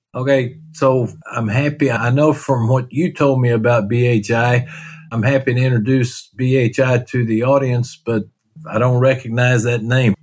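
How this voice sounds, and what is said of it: Texas accent. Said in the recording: “my Texas accent”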